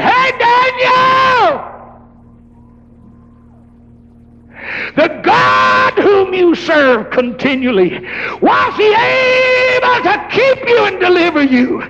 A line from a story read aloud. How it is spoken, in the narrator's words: old Daniel hollered from the bottom of that lion den